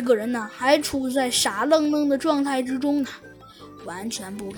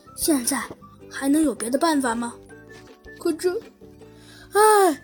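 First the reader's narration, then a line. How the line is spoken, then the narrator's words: Sighing. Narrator (Chinese): 唉，猴子警长叹了口气，说道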